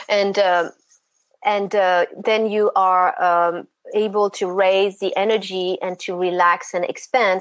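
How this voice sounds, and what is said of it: French accent. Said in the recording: “my French accent ... I love your accent”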